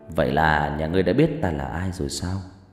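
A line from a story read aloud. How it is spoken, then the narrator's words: Smiling, probing. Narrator (Vietnamese): Hắn mỉm cười với ánh mắt thăm dò và nói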